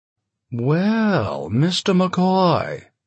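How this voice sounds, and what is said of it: Mid-Atlantic accent. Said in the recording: “said Nunnally Void with a mid-Atlantic accent”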